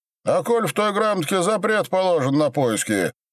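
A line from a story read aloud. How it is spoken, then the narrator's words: Shouting. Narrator (Russian): крикнул Дронов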